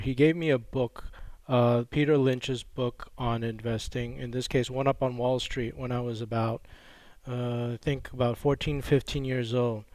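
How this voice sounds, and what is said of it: American accent, Texas-influenced. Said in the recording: “I have this horrible American accent ... I grew up in Texas”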